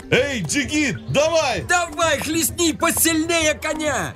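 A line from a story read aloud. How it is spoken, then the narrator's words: Crowd shouting. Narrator (Russian): Толпа опять закричала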